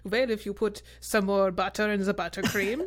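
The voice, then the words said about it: Bad put-on French accent. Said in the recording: “I just did a terrible French accent”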